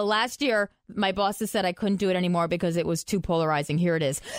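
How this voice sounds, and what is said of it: Usual voice. Nothing is said of it.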